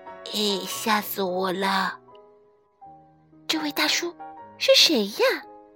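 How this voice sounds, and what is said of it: Whispering, frightened little voice. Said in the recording (Chinese): “三只小老鼠缩成一团，小声嘀咕开了。”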